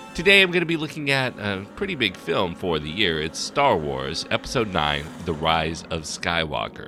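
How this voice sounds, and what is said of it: Deeper voice, sounds sick with cold. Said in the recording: “I am a little bit under the weather, so my voice is a little deeper”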